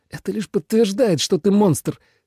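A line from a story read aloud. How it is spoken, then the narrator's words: Through clenched teeth. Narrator (Russian): стискивая зубы, процедил Тоби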